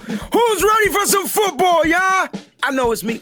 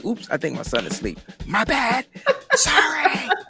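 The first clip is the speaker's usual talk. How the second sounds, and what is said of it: Whispering. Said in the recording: “Why am I whispering”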